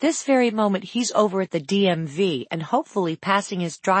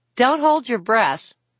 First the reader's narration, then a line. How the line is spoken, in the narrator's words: Cammy said with a laugh